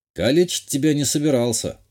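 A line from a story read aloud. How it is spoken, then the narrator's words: Snorting. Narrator (Russian): хмыкнул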